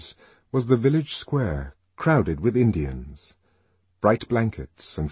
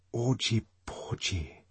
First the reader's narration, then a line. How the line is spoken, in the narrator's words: she whispered to herself